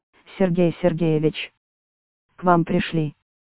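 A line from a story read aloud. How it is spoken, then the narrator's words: Quiet. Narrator (Russian): негромко сказала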